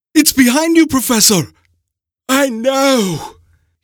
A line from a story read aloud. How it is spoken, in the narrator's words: cried out, his breathing labored